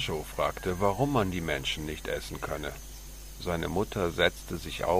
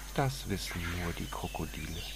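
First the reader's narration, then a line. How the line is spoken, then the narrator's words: Purring. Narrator (German): Pauline schnurrte dann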